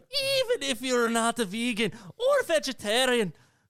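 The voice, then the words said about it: Attempted Scottish accent, sounding Irish. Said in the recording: “I should have put a Scottish accent. It would be like, it'd be angrier. ... You sound like a witch. ... that's Irish. ... They're close.”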